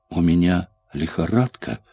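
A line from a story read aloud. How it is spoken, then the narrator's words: Weak voice. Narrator (Russian): слабым голосом спросила Сьюзен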